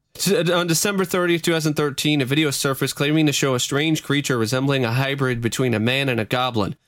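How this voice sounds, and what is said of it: Reading very fast. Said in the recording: “where's the fire at, buddy? Why are you reading that so fast? you a rapper?”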